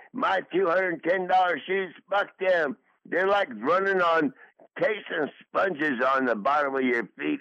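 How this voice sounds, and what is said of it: Slurred speech. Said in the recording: “you're slurring your words ... I slur those words because I don't have my top teeth in my top lip”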